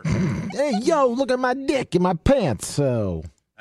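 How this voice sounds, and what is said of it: Italian-accented tough-guy character voice. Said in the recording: “impersonation ... That's my Italian.”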